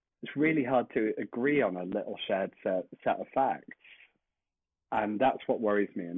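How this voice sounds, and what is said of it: British accent. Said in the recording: “a lot like in the UK, which is obviously, as people I'm sure can tell by my accent”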